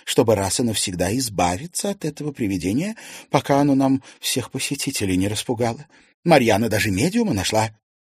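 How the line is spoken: Quiet. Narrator (Russian): тихо сказала Алена Александровна

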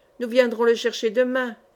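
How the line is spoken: Plain. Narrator (French): dit M

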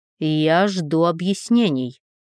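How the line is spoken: Through gritted teeth. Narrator (Russian): процедил Ник

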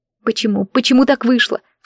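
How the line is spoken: Sobbing. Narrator (Russian): всхлипывала я

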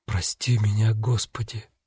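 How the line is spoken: Strained dry-lipped whisper. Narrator (Russian): С трудом шевеля пересохшими губами, налетчик прошептал

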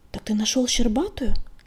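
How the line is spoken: Hissing. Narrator (Russian): прошипела она

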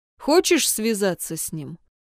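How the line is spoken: Strange-voiced question. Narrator (Russian): каким-то странным голосом спросил Джун

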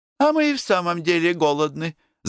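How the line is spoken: Laughing. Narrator (Russian): засмеялась Оксана

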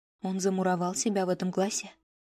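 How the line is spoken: Quiet question. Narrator (Russian): тихо спросила Мизуки

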